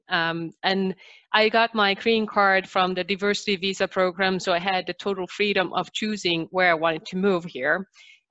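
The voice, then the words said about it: Slight Finnish accent. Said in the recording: “people can probably already hear that I have a little bit of an accent. So I'm originally from Finland”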